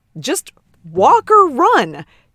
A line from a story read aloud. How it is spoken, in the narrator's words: Ted exclaimed